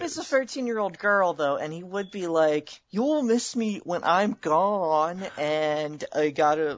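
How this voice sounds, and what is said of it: Usual voice. Nothing is said of it.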